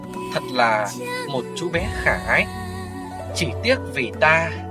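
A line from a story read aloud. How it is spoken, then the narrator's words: Smiling, continuing. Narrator (Vietnamese): Lý Tầm Hoan mỉm cười nói tiếp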